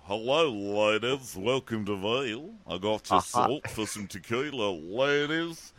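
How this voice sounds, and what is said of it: Mishmash of many accents. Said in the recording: “His accent made no sense. It was like every single accent we've ever done rolled into one.”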